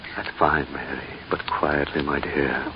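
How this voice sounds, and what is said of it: Whispering. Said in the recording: “Why the whisper”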